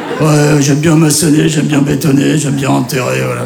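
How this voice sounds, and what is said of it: Put-on southern French accent. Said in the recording (French): “je fais pas un accent du sud”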